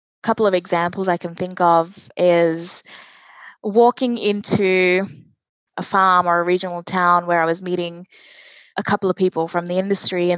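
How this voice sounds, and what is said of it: Australian accent. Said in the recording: “obviously have an Australian accent, you know, I would say I'm definitely Australian”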